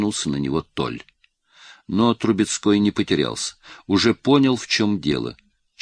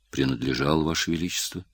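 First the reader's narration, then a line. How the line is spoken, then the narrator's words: Calm reply. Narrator (Russian): ответил Трубецкой спокойно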